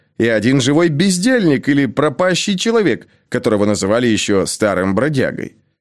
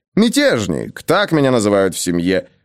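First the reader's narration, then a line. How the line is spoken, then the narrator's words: Good-natured grumble. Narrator (Russian): добродушно ворчал он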